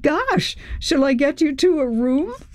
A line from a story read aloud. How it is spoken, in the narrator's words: Chris laughed